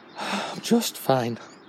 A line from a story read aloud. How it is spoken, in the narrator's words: I gasped and replied